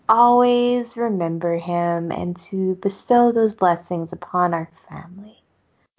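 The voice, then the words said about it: Soft, reverent character voice. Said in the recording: “I always go softer whenever I'm doing a Molly Mormon impersonation. ... Because you're being reverent.”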